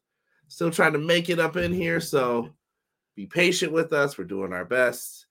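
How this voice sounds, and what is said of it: Slightly hoarse voice. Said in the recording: “Throat is still a little hoarse.”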